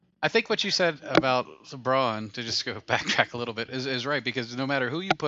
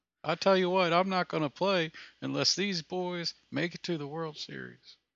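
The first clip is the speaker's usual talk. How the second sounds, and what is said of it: Brett Favre / Hank Hill impression. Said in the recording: “That's my Brett Favre / Hank Hill impersonation.”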